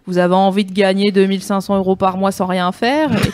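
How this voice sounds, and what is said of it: Put-on Franche-Comté regional French accent. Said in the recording (French): “un gars avec un accent de la Franche-Comté”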